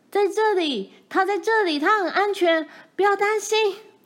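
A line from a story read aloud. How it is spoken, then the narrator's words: Loud shouting. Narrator (Chinese): 大阿姨对我们大叫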